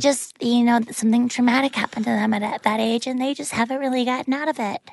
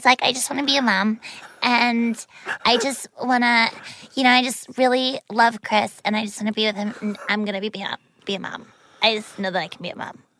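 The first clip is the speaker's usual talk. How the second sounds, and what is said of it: Baby-like girlish voice. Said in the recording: “This is how Whitney on The Bachelor sounded. Like, exactly. Yeah, she just talked like this ... They talk like babies.”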